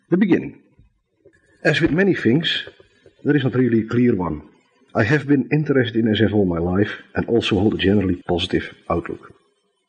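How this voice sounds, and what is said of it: Thick Dutch accent, nasal voice. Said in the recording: “my thick Dutch accent, which is somewhat worsened by the nasality caused by a retreating flu.”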